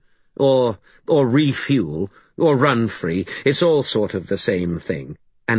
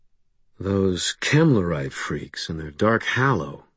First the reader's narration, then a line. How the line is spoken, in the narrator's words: I breathed